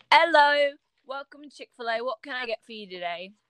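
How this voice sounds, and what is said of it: Put-on British accent. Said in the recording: “are you British? Are you British? No, I just speak in a British accent”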